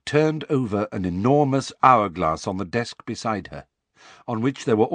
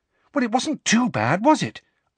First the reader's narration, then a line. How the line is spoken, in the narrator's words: asked Hermione anxiously